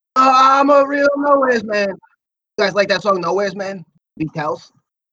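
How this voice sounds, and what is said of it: Imitates another person's voice. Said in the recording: “my impression ... do your John Lennon”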